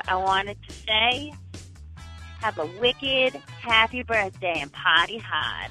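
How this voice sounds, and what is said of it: Put-on Boston accent. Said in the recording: “my grandpa has the most amazing Boston accent. My mom's got the most amazing Boston accent. And from them to you”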